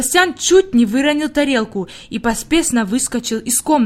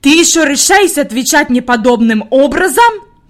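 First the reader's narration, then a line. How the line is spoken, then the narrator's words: Furious shriek. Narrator (Russian): Рассвирепшая Фрейлин завизжала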